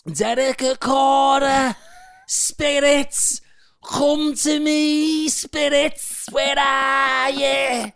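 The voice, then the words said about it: Derek Acorah medium accent impression. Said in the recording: “do the accent”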